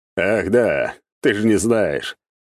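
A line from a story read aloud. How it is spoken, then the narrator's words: Demon's amused grunt. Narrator (Russian): хмыкнул бес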